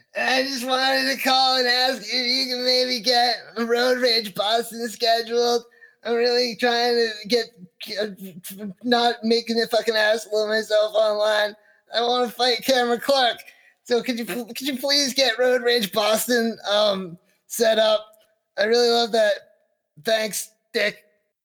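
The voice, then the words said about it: Imitates another person's voice. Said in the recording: “I love that impression. ... Yeah, it sounds a lot like him, I think. ... Yeah, perfect. Spot on.”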